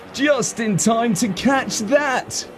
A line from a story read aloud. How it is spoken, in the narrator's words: called out gleefully